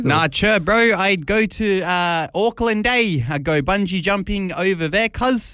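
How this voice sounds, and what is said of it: Bad put-on New Zealand accent. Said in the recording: “Was that a bad New Zealand accent ... apologies for ... very bad accent”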